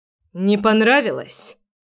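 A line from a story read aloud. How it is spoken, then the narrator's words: Harsh and rude. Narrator (Russian): Как-то жестко и грубо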